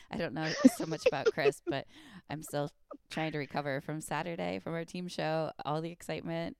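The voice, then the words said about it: Hoarse, strained voice. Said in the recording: “you can probably hear the hoarseness in my voice. ... I always tend to like lose my voice, and I'm still like trying to recover”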